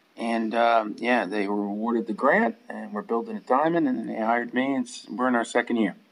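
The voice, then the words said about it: American accent. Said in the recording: “you got a bit of an accent there ... New Haven, Connecticut”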